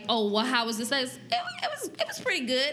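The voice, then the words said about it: Raised high-pitched voice. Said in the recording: “When your voice go high like that”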